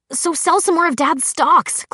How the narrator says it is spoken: Clary said angrily

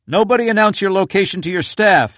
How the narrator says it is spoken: yelled Ben Sasse, a Nebraska Republican

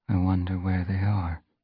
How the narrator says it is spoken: she murmured, almost too quietly for Fireheart to hear

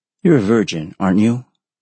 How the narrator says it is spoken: in a casual tone, as if he were only confirming her blood type

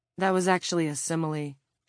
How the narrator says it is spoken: she said coldly

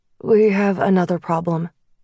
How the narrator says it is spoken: he said, his voice steady

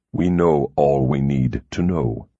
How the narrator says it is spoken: he said flatly

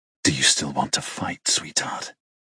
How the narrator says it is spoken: He murmurs in my ear, his voice dropping to a chilling range

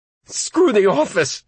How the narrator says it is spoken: Buddy cried

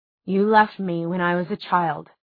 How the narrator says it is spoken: he said in a measured voice

